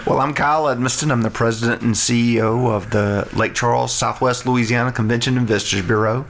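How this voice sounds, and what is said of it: Southern North Louisiana accent. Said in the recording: “originally from North Louisiana. So there's a little more redneck in my accent, so my voice should stand out among the four of us”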